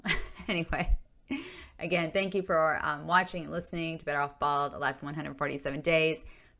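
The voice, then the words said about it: Hoarse, strained voice. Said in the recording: “my voice has been shot for quite some time ... a cold that developed into an upper respiratory infection ... my throat, I should say, is killing me ... I always sound hoarse or just terrible”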